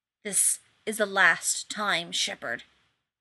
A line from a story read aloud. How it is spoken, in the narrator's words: the wraith man hissed, and he sounded more furious than even Rodney had expected